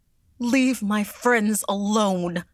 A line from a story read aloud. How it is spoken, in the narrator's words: she cried